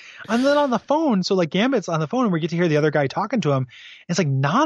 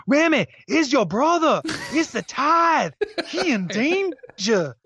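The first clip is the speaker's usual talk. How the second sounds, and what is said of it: Put-on Cajun accent. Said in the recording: “this guy's accent was like ... It's like a Cajun Mad Libs”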